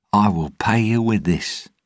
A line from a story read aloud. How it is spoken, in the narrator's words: Jack said brightly